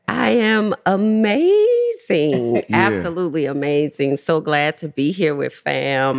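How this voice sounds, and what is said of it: Slight New Orleans accent. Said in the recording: “I hear like a little accent. ... From the N.O. ... New Orleans”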